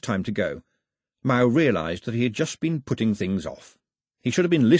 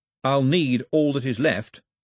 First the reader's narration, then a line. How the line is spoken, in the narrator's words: said Mao firmly